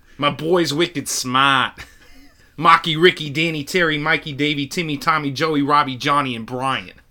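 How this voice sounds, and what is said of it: Put-on Boston accent. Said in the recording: “your Boston accent ... That's pretty good, man. That's pretty good.”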